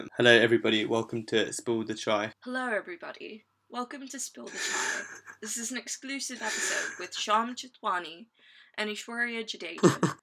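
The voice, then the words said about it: Attempted British accent, sounds American. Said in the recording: “Can you do it a British accent? ... And this is my British accent. As you can tell, it's quite authentic. ... Because you sound like an American”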